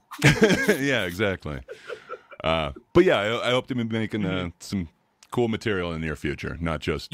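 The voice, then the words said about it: Very deep radio voice. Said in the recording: “you have a really deep voice. I'm pretty sure everyone's told you that. ... you got a good radio voice”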